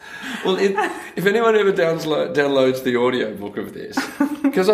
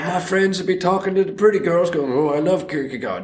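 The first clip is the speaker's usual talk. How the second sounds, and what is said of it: Imitates another person's voice. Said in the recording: “that was a fantastic impersonation”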